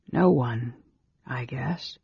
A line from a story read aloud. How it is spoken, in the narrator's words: the mage said softly